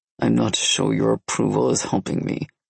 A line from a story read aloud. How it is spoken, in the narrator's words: Nikolai muttered